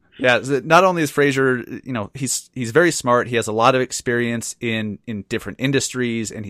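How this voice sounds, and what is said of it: Usual voice. Nothing is said of it.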